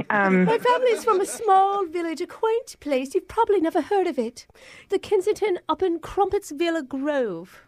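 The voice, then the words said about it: Put-on English accent. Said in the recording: “I'm a little surprised by your accent ... You're both English sounding.”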